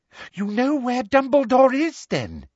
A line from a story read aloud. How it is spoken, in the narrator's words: said Umbridge eagerly